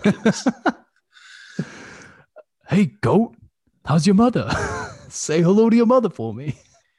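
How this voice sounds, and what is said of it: Imitates another person's voice. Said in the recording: “It's Sandberg imitating Wahlberg on SNL.”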